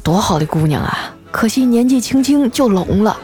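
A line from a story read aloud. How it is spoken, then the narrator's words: Sighing, pitying murmur. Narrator (Chinese): 他们俩在背后叹气，还说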